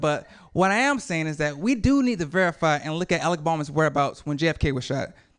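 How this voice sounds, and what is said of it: Speaker with a noticeable accent. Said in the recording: “Your accent is absolutely lovely.”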